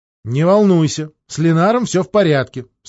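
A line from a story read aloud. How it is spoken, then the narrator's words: Stern voice on phone. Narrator (Russian): строго повторила она в телефонную трубку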